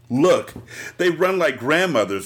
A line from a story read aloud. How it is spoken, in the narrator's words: Robert cackled